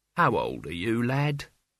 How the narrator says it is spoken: said Albert, kindly

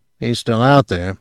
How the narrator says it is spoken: he muttered

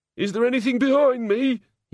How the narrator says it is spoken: quavered

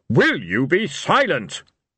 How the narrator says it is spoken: Blind Io thundered

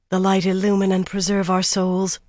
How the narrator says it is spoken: Atheniel breathed

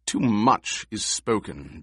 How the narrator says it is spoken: Jessica said bitterly

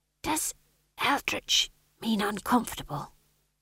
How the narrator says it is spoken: He hissed

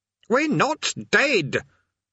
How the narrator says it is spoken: Eric shouted

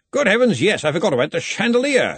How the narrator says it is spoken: exclaimed Ridcully

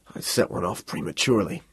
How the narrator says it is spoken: he mumbled

